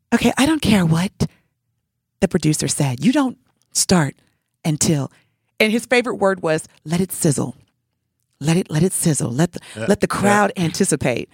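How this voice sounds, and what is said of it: Imitates another person's voice. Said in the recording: “I'm doing my best Michael Jackson impersonation here”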